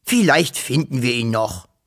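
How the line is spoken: Dragon hissing comfortingly. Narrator (German): tröstete der Drache sie fauchend

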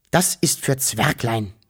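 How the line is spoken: Hissing. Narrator (German): zischte Wuschel dazu

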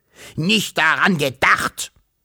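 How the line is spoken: Grunting uncle. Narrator (German): grunzte der Wawuschel-Onkel

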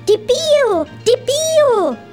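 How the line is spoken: Shouting. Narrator (German): schrie

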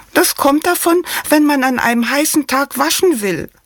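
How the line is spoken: Whining. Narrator (German): jammert Schweinchen Joe

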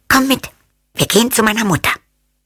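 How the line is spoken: Fast, high-pitched. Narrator (German): sagte mit einem Mal ganz schnell und mit ganz hoher Stimme

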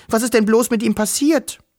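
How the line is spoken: Whining. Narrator (German): jammerte Wischel

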